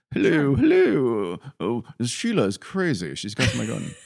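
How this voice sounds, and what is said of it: Bad gruff English accent. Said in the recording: “he just had to put on that old gruff English ... That's the worst accent ever.”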